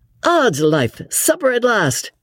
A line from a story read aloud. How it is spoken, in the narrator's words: said Lord Antony merrily